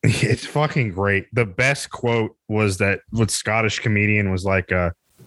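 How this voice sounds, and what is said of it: Usual voice. Nothing is said of it.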